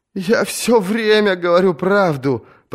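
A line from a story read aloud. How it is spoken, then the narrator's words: Sobbing, singer. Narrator (Russian): прорыдал певец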